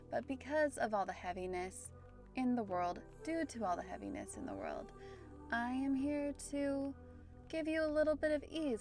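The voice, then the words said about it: Standard American accent. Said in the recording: “my very standard American accent”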